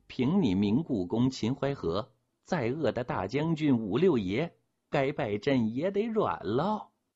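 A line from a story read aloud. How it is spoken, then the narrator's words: Lewd laughter. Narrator (Chinese): 宝婊子们不知道，还在浪笑着说呢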